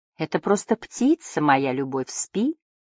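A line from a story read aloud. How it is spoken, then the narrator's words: Plump woman mumbling. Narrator (Russian): пробормотала толстушка в розовом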